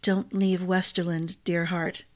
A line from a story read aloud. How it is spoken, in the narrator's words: murmured